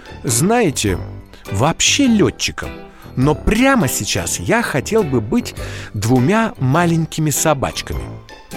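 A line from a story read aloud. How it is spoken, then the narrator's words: Said thoughtfully. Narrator (Russian): задумчиво сказал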